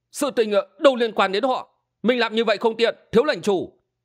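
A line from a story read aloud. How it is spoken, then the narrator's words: Exclaiming. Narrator (Vietnamese): Hình Xuyên kêu lên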